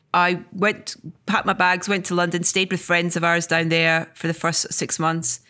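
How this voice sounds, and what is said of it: Scottish accent. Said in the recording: “anybody should have a Scottish accent... I'm not changing my accent”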